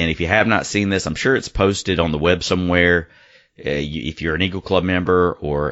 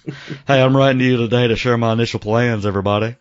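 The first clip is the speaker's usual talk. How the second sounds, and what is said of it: Mellowed-out imitation of another person's voice. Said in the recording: “Should I read this in a Rodney Bennett voice? ... like a mellowed out Humpty Hump”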